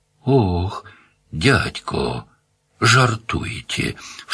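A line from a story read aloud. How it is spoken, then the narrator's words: Doubtful hoarse rasp. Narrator (Russian): в сомнении прохрипел хозяин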